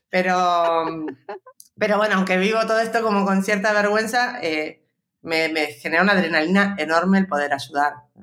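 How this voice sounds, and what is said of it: Buenos Aires Argentine accent. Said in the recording (Spanish): “acento ... ¿de dónde viene ese acento? ... yo soy porteña de Buenos”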